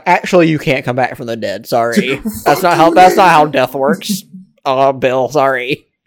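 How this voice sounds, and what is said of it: Imitates another person's voice. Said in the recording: “That's a terrible Neil deGrasse Tyson impression”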